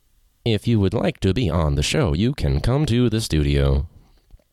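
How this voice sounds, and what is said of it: Monotone robot voice. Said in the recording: “That probably just came out as monotone. ... Sorry, that robot voice”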